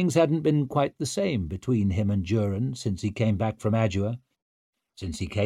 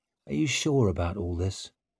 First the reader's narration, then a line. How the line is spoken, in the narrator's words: He dropped his voice to a whisper